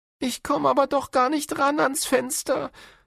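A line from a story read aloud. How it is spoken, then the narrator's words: Whining complaint. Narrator (German): jammert Florian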